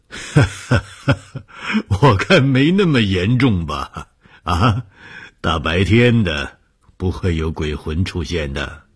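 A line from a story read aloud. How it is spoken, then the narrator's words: Laughing. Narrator (Chinese): 红鱼笑了说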